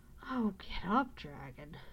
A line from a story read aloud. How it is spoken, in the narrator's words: cried the boy, piteously